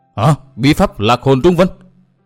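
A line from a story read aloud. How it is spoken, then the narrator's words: Alarmed cry, group. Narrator (Vietnamese): bọn ma đầu Mông Cổ thất sắc kêu lên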